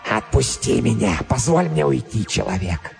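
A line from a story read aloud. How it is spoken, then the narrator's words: Hoarse, heavily accented, expressive. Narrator (Russian): Хриплый голос и сильный акцент придавали его словам необычайную выразительность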